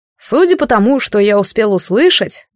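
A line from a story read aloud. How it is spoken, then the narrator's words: Mocking reply. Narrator (Russian): насмешливо отозвался Карас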